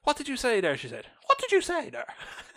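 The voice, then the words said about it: Put-on Longford Irish accent. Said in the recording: “Great impression. ... It's my best Longford impression.”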